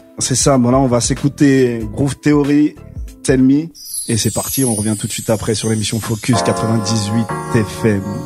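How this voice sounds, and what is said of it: Speaks with a noticeable accent. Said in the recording (French): “vu que t'as un bel accent”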